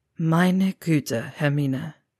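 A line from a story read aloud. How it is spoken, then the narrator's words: Muttered. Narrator (German): murmelte er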